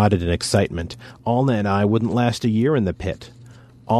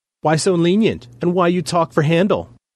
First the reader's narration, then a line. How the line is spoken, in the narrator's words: Luck and Tuck giggled